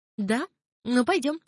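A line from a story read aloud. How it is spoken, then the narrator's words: Snorting. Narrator (Russian): хмыкнула Мирания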